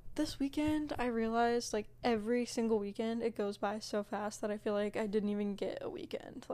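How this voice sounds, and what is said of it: Out of breath, breathy speech. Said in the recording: “Sorry I'm, like, so out of breath.”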